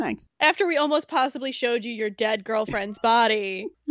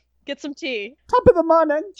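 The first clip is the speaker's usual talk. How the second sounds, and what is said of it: Bad put-on British-Irish accent. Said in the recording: “Like your accent ... That's Irish ... I'm awful at these ... How many bad British accents can we throw?”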